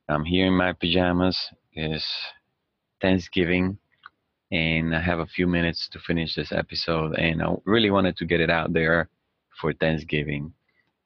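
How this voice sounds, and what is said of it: Raspy morning voice. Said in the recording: “my voice may sound a little different, raspy.”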